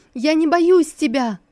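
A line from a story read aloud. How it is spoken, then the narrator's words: Desperate shout. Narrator (Russian): отчаянно крикнула Лисусу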